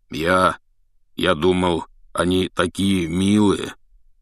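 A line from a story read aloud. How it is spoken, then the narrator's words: Uncertain. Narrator (Russian): неуверенно сказал Хагрид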